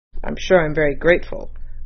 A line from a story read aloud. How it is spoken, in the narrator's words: muttered Mr